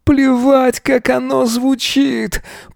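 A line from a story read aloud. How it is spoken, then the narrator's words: Moaning. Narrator (Russian): Простонал Эзра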